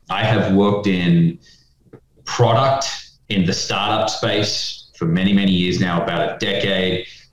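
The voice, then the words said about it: Australian accent. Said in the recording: “You can tell by the accent, not from the States ... I'm originally from Australia.”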